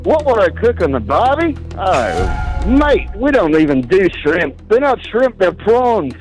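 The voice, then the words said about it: Fake Australian accent. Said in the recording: “actually doing an Australian accent or not ... the majority says that it's fake. I'm going to go with that as a fake accent.”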